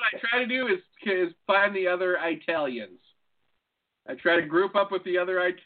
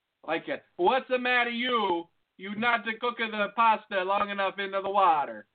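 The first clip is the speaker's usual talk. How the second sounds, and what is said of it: Put-on Italian accent. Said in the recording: “I start my Italian accent.”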